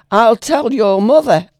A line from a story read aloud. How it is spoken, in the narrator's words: Misery went to his head, and he shouted angrily